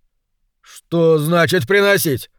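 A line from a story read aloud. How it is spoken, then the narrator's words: Irritated question. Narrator (Russian): раздраженно поинтересовался Кенни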